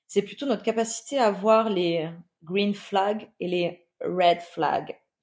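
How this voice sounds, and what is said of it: Put-on accent on English words. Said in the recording (French): “j'ai fait mon meilleur accent”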